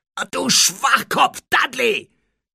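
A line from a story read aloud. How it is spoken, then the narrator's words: Shouted. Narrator (German): schrie Harry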